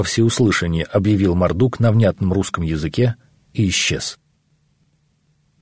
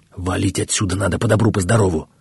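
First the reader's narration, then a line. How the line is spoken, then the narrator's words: Spoke quietly. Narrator (Russian): тихо проговорил Сермягин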